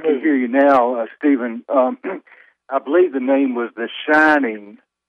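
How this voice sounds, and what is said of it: Southern American accent. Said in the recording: “a non-Southern accent on my part ... I'm okay with a Southern accent.”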